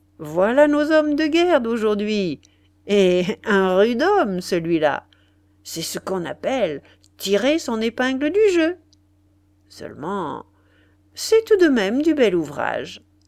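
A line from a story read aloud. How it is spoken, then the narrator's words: Sneering. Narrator (French): disait Massot en ricanant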